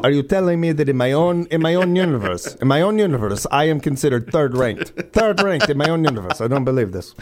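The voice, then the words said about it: Italian accent. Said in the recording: “That's an actual Italian accent. I'm not going to do a Chris Pratt or a joke accent.”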